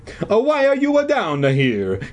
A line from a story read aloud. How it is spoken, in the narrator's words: he demanded in his hoarse Italian voice